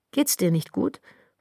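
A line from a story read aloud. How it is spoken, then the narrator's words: Interrupting question. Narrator (German): ich fuhr wieder mit einer Frage dazwischen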